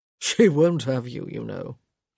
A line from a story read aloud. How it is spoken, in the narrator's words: he said, chuckling under the words